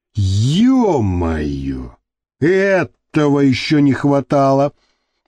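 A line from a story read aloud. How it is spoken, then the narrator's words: Grumbling. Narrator (Russian): проворчал Пахан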